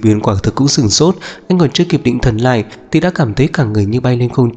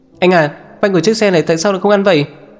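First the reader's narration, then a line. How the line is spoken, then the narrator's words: Boy shouting. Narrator (Vietnamese): Cậu nhóc lái xe hét lên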